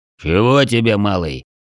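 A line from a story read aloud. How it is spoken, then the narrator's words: Deep muffled bass. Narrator (Russian): глухим басом отозвался гигант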